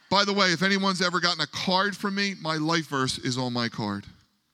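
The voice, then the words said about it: Strong Philadelphia accent. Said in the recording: “a 55-year-old male from Philadelphia with a brutal Philly accent, and I do mean brutal. That would be me.”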